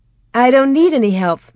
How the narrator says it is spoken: Mary said happily

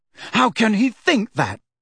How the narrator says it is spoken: said Harry angrily

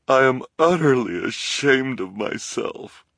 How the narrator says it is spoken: she said, through her tears, and her shoulders shook with sobs

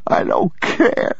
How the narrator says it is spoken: the boy said, sobbing

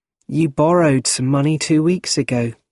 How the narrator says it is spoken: she said kindly

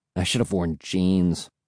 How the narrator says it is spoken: I muttered

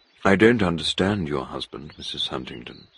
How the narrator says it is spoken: Hargreaves said

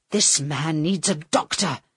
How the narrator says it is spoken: Carl said to the girl angrily

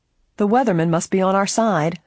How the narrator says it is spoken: Helen chuckled

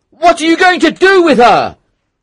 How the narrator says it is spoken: he shouted

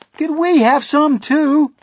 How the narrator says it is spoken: they cried

